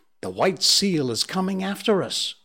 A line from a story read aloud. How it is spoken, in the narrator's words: cried Patalamon